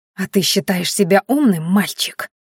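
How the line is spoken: Close, whispered in face. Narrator (Russian): прошептала Майяри прямо в лицо Роду

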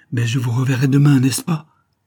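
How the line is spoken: Plain. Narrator (French): demanda-t-il

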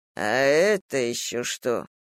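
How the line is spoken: Grumbling. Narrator (Russian): проворчал Фальк

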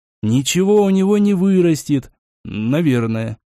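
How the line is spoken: Uncertain engineer. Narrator (Russian): неуверенно добавил инженер

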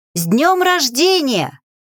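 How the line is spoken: Loud shout. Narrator (Russian): прокричала я, всполошив девочек

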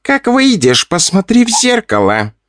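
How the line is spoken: Giggling demon. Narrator (Russian): хихикал демон

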